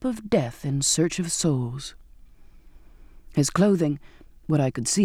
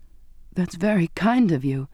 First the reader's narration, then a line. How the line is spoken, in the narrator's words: I stammered in surprise